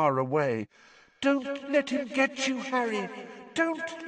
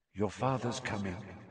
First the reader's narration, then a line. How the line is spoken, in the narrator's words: she said quietly